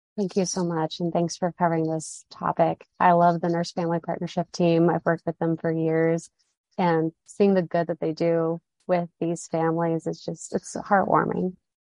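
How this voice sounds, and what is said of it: Polished radio-style voice. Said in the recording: “she's got a radio voice too”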